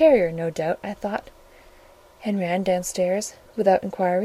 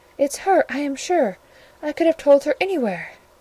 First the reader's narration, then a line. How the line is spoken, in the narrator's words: cried the individual